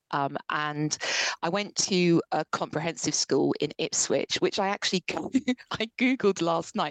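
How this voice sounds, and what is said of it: Posh-sounding English accent. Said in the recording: “You listen to me now, people think she might be like a posh person.”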